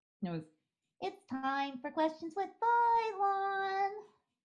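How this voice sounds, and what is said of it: Baby doll voice. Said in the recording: “do my baby doll voice”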